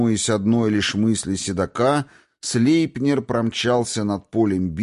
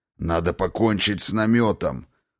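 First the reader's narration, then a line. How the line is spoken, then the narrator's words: Growled. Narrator (Russian): рыкнул Один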